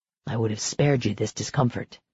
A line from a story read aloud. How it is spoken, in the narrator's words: he murmured